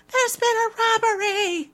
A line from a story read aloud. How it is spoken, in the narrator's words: a voice shrieks